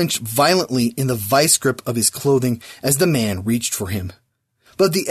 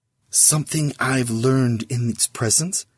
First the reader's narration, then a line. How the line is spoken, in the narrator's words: he whispered to Sis